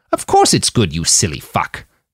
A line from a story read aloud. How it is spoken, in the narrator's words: Nanayazi snapped